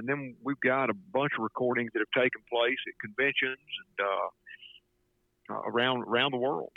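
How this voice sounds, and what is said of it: Speaks with a regional accent. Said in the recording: “listening to my accent”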